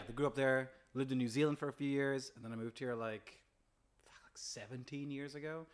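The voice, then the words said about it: American accent. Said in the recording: “So that's the American accent. ... That's the American accent.”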